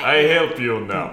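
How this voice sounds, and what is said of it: Colossus impression, Russian accent. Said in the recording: “I don't want him to just have a bad Russian accent ... the Russian accent not being there”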